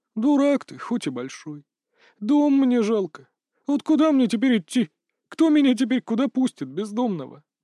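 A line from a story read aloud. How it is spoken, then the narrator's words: Sobbing. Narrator (Russian): Дмитрию показалось, что его собеседник всхлипнул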